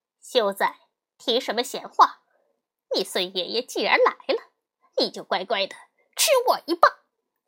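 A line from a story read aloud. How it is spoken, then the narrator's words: Cold sneer. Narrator (Chinese): 悟空冷笑一声，说道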